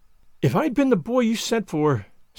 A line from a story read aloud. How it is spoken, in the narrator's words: said Anne wistfully